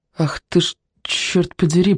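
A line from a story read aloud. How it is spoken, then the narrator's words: Muttered. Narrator (Russian): пробормотал Кон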